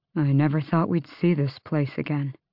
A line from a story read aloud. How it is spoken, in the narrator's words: Dorian murmured